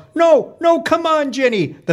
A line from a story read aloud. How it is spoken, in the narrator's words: My mom yells